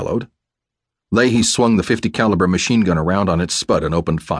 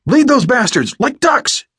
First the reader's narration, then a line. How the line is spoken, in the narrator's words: O'Connor roared above the noise of the gun